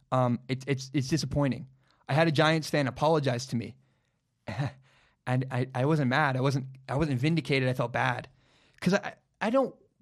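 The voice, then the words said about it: Lowered, quieter voice. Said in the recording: “I'm gonna lower my voice.”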